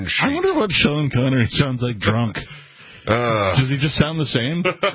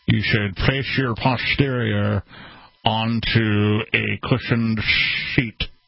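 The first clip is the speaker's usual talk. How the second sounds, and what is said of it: Sean Connery accent impression. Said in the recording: “Sean Connery accent”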